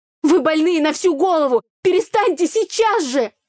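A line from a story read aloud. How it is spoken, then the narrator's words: Frenzied yelling. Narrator (Russian): Орала я, находясь в состоянии аффекта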